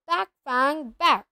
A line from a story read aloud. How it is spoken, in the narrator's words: Hagrid's voice rang out saying